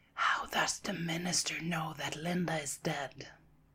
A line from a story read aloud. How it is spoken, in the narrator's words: whispers